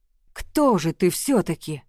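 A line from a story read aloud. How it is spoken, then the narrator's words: Terrified breathless exhale. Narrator (Russian): выдохнул он с непередаваемым ужасом и трепетом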